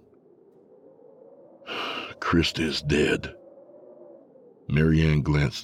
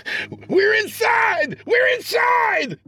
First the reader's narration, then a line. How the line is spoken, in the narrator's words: he cried out frantically as he came to